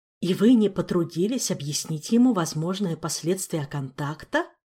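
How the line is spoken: Threatening hiss. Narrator (Russian): По части угрожающего шипения, Раэл вполне мог бы потягаться с тем же Флавиусом

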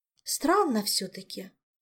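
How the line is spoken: Sighing. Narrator (Russian): вздохнула Ольга

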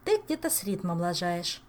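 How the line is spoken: Plain. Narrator (Russian): сказала Саэта

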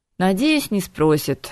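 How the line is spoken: Glum agreement. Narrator (Russian): уныло согласился Харган

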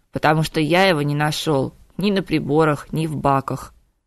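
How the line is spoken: Grim smirk. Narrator (Russian): мрачно ухмыльнулся Виктор

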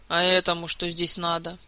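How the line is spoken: Grumbling. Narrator (Russian): проворчал Шелар

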